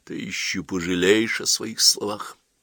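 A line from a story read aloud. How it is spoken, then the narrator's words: Whisper. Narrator (Russian): прошептал Вирский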